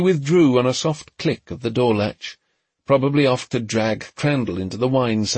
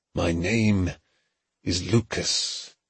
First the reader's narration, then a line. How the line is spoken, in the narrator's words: he muttered to the empty room